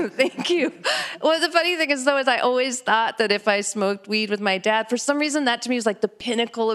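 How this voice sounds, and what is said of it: Usual voice. Nothing is said of it.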